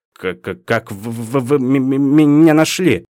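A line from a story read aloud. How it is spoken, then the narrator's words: Nervous stutter. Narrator (Russian): от волнения к учителю вернулось заикание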